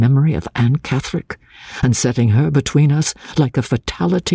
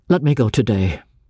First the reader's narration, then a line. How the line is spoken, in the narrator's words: I said bitterly